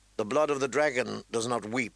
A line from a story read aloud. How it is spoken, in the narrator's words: she said testily